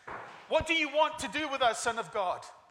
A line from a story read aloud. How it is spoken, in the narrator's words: They shouted